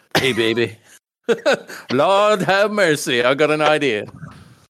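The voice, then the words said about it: Steven Seagal impression, Memphis accent. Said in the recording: “That is Sensei Seagal doing a Memphis accent ... channeling his southern roots”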